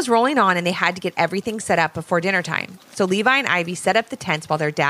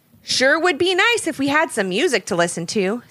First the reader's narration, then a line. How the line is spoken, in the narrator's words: said Levi